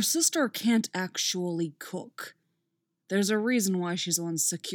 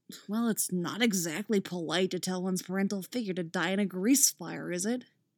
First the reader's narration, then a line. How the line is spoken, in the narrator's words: Tim mumbles